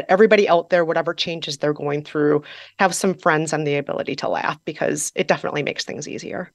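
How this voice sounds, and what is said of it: Midwestern American accent. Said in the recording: “anyone who cannot hear the Midwest in your accent is not listening closely ... talking to a friend from Fargo, North Dakota, or, you know, Milwaukee, Wisconsin”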